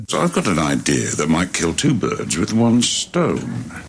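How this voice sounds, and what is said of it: Trained British theater accent. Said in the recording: “the heart of London, the very trained British theater accent ... Carson in Downton Abbey”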